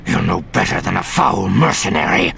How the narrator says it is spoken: he snarled, his voice about as vicious as Card had ever heard a Bothan get

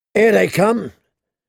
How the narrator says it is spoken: said someone in a hoarse voice

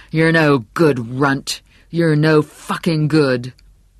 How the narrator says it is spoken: his father … bellowing

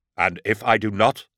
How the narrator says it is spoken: said

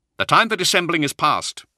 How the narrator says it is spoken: Zahariel said, his tone as cold and sharp as ice

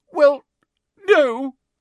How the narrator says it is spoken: sobbed Hermione

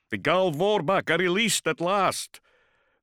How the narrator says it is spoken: Zaphon had shouted to them all

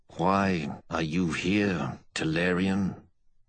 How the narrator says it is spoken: he said slowly, in a voice tinged more by exhaustion than by wine

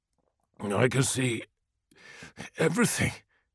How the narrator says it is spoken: gasped Ahriman

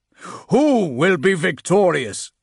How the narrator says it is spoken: His voice boomed out across the chamber

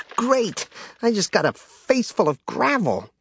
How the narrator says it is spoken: Jaina spluttered

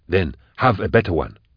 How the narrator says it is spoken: Goblika snarled

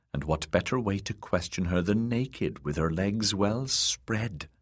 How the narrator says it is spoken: the dwarf whispered

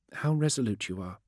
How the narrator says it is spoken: she sighed

